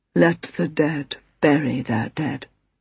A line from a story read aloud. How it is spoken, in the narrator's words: murmured foggily